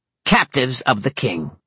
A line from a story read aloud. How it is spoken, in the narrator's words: said Ethna in a clipped voice